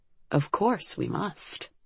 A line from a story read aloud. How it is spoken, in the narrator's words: Liv muttered